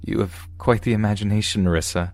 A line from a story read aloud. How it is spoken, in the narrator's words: I chuckled